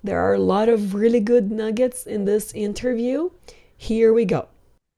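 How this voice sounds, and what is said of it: Rough voice from a cold. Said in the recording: “my voice is so bad right now. I somehow have a little cold.”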